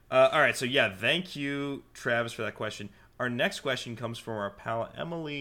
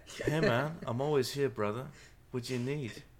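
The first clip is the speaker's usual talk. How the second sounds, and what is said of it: Youth pastor voice, bad English accent. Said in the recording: “Put on your youth pastor voice. ... I don't know why he has to have a bad English accent”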